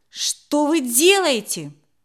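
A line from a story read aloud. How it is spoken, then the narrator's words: Shout. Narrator (Russian): крикнул Сашка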